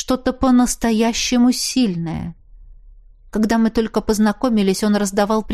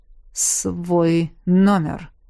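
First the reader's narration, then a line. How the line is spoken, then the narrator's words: Repeated with growling notes. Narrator (Russian): повторяет он, и в его интонациях я слышу рычащие нотки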